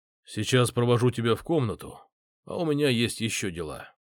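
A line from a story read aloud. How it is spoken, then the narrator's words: Detached tone. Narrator (Russian): отстраненным тоном сообщает Кейн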